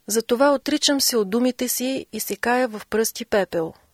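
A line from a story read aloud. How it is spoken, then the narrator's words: Exclaiming. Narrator (Bulgarian): възкликна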